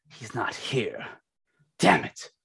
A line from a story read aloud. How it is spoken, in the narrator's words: Al Rose is looking around and he snarls